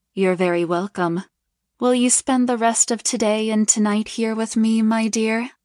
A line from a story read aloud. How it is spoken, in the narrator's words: Madam asked her